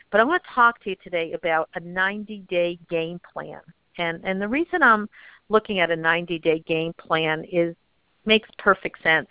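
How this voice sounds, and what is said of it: Strained, worn-out voice. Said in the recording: “I've been doing 3 days of enrollments in Minnesota, so my voice is going a little bit.”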